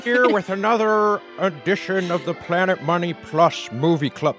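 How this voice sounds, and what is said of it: Jimmy Stewart impression sounding like Dr. Evil. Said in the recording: “doing a Jimmy Stewart impression ... It's more Dr. Evil than Jimmy Stewart.”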